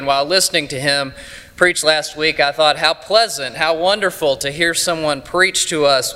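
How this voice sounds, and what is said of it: East Texas accent. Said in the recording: “I will extend our streak of fine and distinct accents. I come to you from East Texas.”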